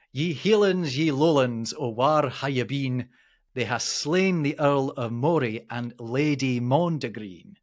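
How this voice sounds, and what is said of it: Put-on Scottish accent. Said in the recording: “am I going to put on a Scottish accent here? I think I might have to”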